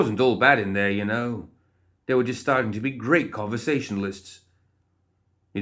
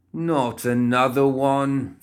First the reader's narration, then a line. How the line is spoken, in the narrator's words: Philip groaned